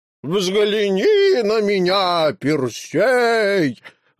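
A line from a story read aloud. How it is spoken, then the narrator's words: Monster howling. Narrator (Russian): взвыло чудовище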